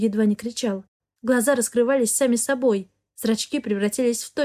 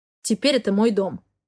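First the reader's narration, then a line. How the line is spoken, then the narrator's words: Growling. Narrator (Russian): рычал Хартман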